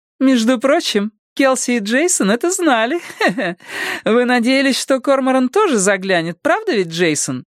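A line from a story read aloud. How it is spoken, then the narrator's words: Cheerful laughter. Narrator (Russian): Весело рассмеялась Буря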